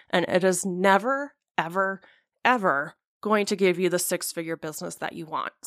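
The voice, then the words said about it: Heated, breathless speaking. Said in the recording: “I'm like almost out of breath from being so heated about it”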